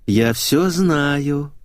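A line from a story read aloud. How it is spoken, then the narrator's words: Purring. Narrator (Russian): промурлыкала Капустина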